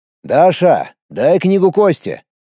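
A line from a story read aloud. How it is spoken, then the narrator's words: Loud. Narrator (Russian): громко сказал я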